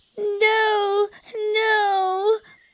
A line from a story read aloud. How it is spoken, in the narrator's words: kept screaming